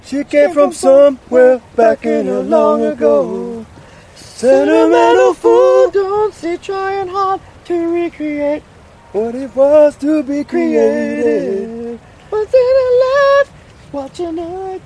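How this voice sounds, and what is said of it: Sung imitation of another singer. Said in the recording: “a spot on Michael McDonald impersonation”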